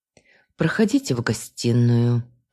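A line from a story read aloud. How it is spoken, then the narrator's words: Sigh. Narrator (Russian): вздохнула я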